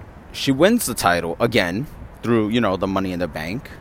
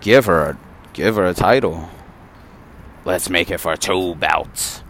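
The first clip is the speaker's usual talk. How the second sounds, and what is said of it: Vince impression. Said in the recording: “my Vince impression”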